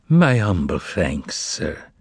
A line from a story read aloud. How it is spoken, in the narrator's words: the man replied equally as sadly